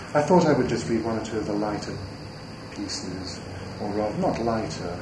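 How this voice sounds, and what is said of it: Oxford British accent. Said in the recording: “accent is even more Oxford British than mine”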